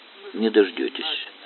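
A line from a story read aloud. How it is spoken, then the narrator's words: Calm, female. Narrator (Russian): спокойно сказала она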